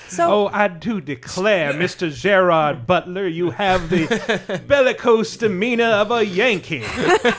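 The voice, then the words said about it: Hammy genteel Southern accent. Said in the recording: “totally hammy and ... a little bit Southern ... genteel Southern accent that continually slips.”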